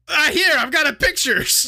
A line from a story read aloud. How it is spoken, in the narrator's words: Lupin shouted